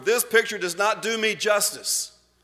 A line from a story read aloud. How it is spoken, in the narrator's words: bellowed at the photographer